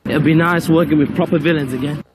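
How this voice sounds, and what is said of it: Unconvincing put-on accent, vowels off. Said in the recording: “None of those vowels really hit their targets.”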